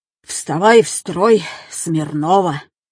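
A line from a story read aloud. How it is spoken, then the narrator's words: Angry. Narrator (Russian): Сердито сказал Павел Федорович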